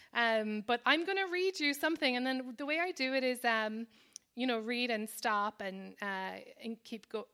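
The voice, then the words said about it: Strong Irish accent. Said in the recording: “my accent gets stronger ... my strong Irish accent”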